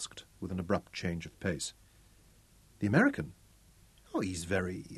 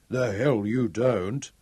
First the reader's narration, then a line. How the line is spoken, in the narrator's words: Ralph chuckled